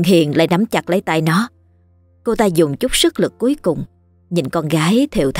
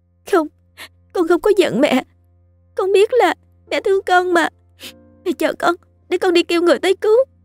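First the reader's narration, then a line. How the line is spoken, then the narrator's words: Sobbing, choked voice. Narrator (Vietnamese): Hà nó khóc nức nở, giọng nghẹn ngào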